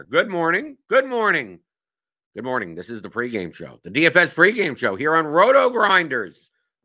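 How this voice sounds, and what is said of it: Slightly hoarse, losing voice. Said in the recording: “a little losing my voice a little”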